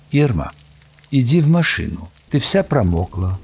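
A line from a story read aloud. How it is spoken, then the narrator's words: Very calm speech. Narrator (Russian): Он сказал очень спокойно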